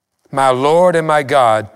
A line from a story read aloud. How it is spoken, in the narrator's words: Thomas exclaimed